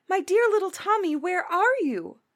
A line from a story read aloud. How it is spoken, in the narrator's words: cried his mother